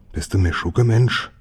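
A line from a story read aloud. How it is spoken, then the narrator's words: Whispered. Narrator (German): flüsterte Gustav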